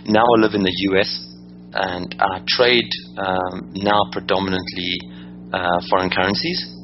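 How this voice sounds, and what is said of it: South African accent. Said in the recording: “as you can hear by my accent, I'm originally from Johannesburg, South Africa”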